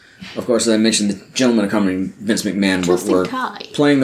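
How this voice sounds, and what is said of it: Usual voice. Nothing is said of it.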